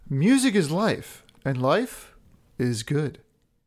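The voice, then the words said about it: Funny put-on voice. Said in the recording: “in a funny voice”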